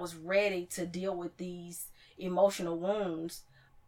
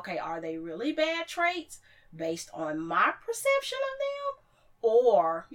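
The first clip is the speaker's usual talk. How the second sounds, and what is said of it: Voice rises in pitch. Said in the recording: “you see how my voice went up?”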